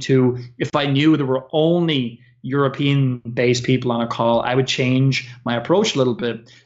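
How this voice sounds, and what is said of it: Irish accent. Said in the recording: “because I'm an Irish person ... They love my accent”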